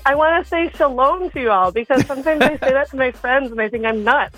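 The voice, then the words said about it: Light Midwestern lilt. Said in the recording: “I'm hearing a lilt of northern Wisconsin in your voice ... I'm pretty Midwest”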